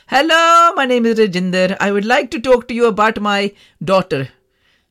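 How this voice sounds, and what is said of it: Put-on Indian accent. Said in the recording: “I don't know why I put an accent on, because my mum hasn't got an Indian accent”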